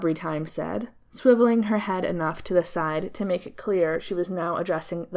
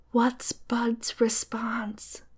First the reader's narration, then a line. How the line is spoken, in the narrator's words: stage whispered